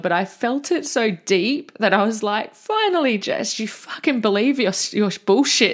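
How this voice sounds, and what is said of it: Emotional, moved voice. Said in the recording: “you can tell because I'm getting emotional”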